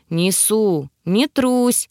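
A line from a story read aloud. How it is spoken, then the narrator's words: Chuckling. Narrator (Russian): хохотнул Тьерри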